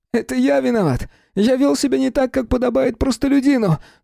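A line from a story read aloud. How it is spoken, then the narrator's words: Straining cries through sobs. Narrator (Russian): Сквозь рыдания надрывался Юкия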